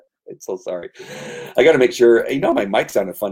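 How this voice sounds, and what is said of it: Usual voice. Nothing is said of it.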